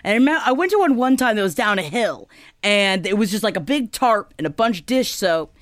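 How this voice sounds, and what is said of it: Slight Florida Southern accent. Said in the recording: “My Florida's coming out. I don't know if you can hear that a little bit. ... my Florida accent comes out a little bit.”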